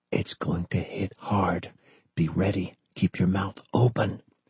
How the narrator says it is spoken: he whispered

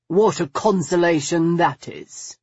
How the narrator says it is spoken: he said, the words sharply edged as any blade

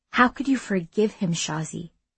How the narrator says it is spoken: Irsa asked softly

